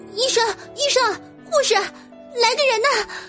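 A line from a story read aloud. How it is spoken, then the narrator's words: Urgent loud shouting. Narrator (Chinese): 嘴里面大声喊着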